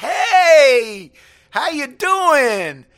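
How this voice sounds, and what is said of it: Philadelphia accent. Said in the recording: “that was a Philadelphia accent.”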